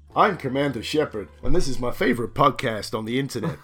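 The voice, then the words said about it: Impression of a video game character. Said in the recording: “your best impression of your favourite game character”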